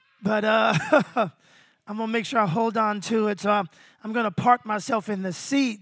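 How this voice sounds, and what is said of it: Strained, sore voice. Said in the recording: “my voice is trying to get away from me ... the reason my voice is so sore”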